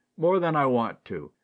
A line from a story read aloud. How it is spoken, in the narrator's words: grumbled Ned